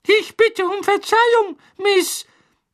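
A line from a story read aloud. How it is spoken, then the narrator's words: Squeaky. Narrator (German): piepste der Hauself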